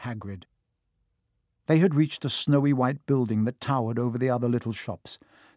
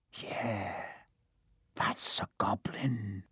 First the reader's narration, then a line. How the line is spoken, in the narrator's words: said Hagrid quietly